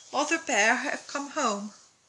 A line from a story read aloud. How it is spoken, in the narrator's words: he smiled and said drowsily